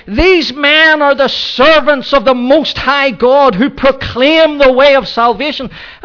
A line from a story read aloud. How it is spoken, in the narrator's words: she was shouting